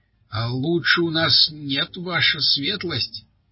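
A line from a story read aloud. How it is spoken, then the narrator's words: Plain. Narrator (Russian): ответил трактирщик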